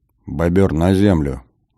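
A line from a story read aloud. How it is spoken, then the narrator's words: Quiet command. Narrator (Russian): негромко скомандовал я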